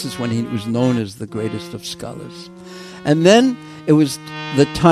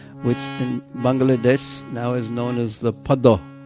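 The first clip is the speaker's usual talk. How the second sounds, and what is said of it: Imitated Bengali accent. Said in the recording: “using my best imitation Bengali accent.”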